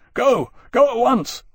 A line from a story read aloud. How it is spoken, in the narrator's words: Lawrence shouted